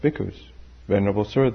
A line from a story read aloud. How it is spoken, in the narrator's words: they replied